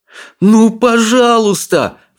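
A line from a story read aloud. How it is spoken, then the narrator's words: Pleading. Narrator (Russian): взмолился Икинг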